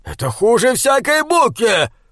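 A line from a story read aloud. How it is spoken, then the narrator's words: Growled. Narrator (Russian): прорычал он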